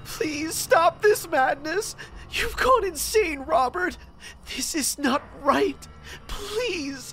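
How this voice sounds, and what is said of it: Sobbing, tearful pleading voice. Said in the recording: “in a sobbing voice”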